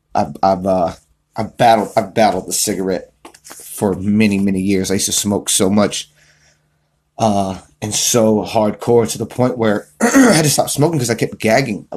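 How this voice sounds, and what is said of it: Slightly raspy throat. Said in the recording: “My throat's a little raspy. ... You ended up smoking cigarettes.”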